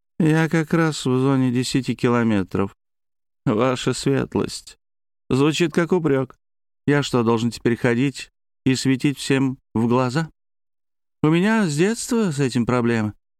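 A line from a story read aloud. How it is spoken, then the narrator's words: Gloomy remark, sensitive man. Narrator (Russian): Сергей Аврин, человек с тонкой душевной организацией, мрачно заметил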